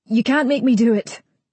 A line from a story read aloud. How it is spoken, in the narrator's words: I shout